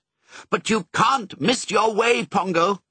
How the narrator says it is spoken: he barked

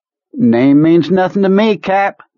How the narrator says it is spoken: Kurtz said in the same bright tone

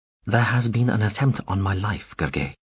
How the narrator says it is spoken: the Emperor said quietly

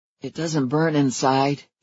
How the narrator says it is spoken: he said, his voice husky and a little helpless

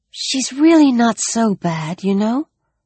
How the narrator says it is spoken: Sarah whispered

